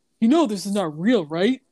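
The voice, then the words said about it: Imitates another person's voice. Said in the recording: “great guy impression”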